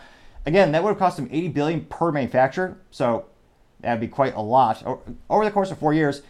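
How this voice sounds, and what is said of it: Usual voice. Nothing is said of it.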